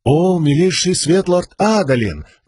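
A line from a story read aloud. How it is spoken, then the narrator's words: Zealot exclaiming. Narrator (Russian): воскликнул ревнитель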